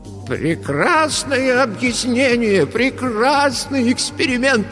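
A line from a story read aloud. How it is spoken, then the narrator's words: Exclaimed. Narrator (Russian): воскликнул он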